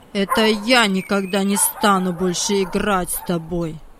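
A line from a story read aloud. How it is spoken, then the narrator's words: Cold. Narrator (Russian): Холодно сказал Владик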